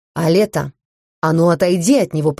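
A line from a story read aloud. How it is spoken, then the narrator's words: Hissed, stranger's voice. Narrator (Russian): прошипел нежданный гость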